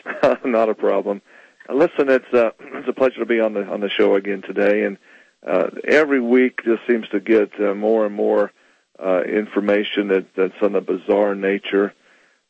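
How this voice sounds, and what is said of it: Hoarse, soft, fading voice. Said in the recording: “I'm losing my voice. I've been talking too much lately. ... so kind of softly”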